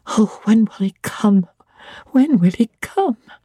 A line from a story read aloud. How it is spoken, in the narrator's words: I cried inwardly